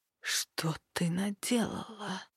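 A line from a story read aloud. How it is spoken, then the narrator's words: Horrified whisper. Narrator (Russian): прошептал Серд исполненным ужаса голосом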